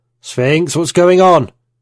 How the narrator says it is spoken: I shouted to the AI

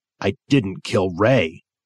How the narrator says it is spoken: Ellis said fiercely

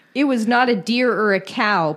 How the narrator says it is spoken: Pennell said

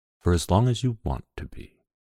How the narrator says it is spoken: His breath stirred my hair and made me shiver as he whispered

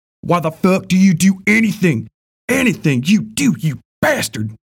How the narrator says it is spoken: Ben screamed back

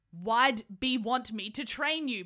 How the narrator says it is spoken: Mace yelled

